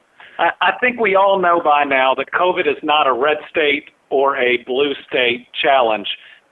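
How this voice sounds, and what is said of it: Noticeably different regional accent. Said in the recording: “I'm the ... with a slightly different accent.”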